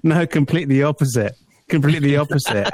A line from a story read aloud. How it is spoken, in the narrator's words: he starts laughing in text form and saying